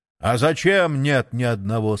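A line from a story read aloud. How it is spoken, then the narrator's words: Menacing question, Satan. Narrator (Russian): спросил грозно сатана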